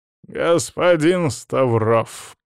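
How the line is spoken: Through gritted teeth. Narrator (Russian): процедил завуч

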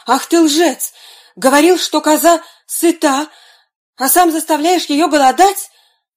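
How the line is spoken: Angry exclamation. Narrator (Russian): воскликнул портной

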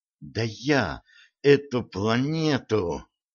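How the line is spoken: Angry flushed hiss. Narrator (Russian): прошипела багровея Стесси

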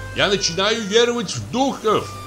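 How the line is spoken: Shouting. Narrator (Russian): крикнул он мне

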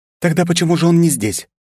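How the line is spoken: Sharp reply. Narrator (Russian): резко ответила Ли

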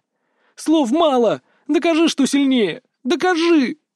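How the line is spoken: Shout while struggling. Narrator (Russian): выкрикнула, продолжая бороться

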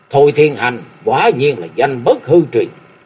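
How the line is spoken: Monks' raised voices. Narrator (Vietnamese): Ba hòa thượng cao giọng nói

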